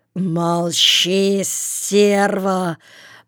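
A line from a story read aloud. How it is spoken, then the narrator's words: Growl. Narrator (Russian): Прорычал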